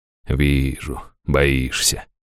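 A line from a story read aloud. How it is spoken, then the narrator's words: Through clenched teeth. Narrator (Russian): процедила Лазарес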